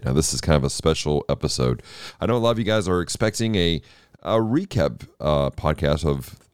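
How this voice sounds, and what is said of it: Hoarse, worn-out voice. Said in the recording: “my voice is shot from all weekend”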